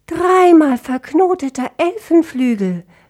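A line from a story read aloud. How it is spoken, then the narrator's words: Calling out. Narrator (German): rief Dissonantia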